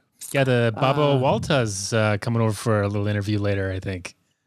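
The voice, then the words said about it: Slight put-on accent. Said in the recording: “I love the slight accent.”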